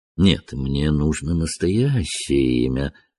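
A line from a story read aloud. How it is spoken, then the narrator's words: Gentle. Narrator (Russian): ласково сказал Холмс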